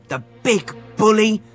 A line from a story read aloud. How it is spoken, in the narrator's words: said Fergus hotly